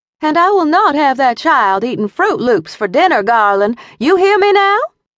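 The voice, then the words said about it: High-pitched Southern drawl. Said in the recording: “my mother's high-pitched southern drawl”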